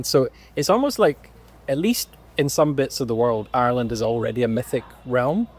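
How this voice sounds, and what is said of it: Scottish accent, often mistaken for Irish. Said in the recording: “as soon as people hear my accent, about 90% of people say, oh, you're from Ireland ... I'm Scottish”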